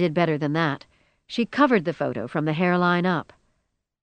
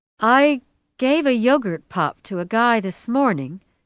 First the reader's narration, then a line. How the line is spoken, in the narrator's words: she began hesitantly